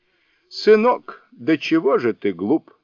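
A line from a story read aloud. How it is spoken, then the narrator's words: Exclaiming. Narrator (Russian): воскликнул Сунь-укун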